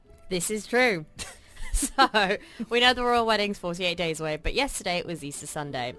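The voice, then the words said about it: British accent. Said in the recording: “she's got a British accent”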